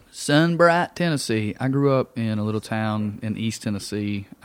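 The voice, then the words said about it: Thick East Tennessee southern accent. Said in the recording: “my accent, I was kidding at first, and now I think it's getting thicker because I'm thinking about Tennessee... It gets thicker when you talk about like the southern state you're from.”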